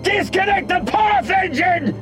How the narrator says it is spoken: Kossuth shouted

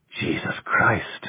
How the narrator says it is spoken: the other whispered

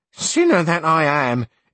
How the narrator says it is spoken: exclaimed Maritornes

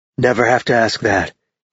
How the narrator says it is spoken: he murmured against her ear

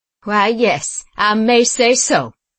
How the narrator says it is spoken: said Simon with a hearty laugh

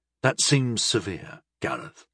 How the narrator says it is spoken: I said gently

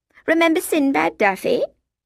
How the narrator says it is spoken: Feely said, laughing

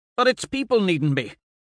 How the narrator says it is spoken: he snaps

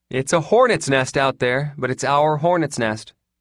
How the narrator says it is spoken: Shine said cheerfully

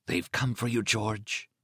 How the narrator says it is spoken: he heard himself whisper

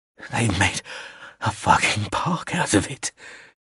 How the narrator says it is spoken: he breathed

